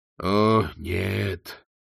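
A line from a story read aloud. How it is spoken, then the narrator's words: Groaning. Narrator (Russian): простонал Колон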